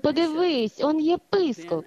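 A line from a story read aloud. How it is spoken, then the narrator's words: Girls speaking joyfully. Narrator (Ukrainian): Дівчатка радісно сказали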